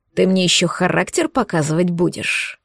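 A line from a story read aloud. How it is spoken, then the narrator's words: Through gritted teeth. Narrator (Russian): процедил ректор сквозь зубы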